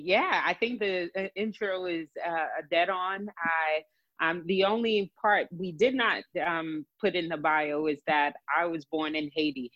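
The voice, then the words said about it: Mixed Haitian and New Jersey accent. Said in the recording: “you have a Haitian and Jersey accent mixed together... And now Texan. A little bit. You'll hear the y'all from Texas.”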